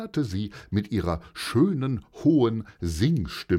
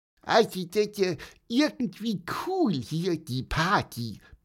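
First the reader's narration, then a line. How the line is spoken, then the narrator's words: Squeaky piping voice. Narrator (German): piepste Pieper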